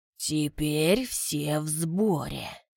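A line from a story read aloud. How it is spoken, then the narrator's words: Quiet. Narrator (Russian): Рохас негромко произнес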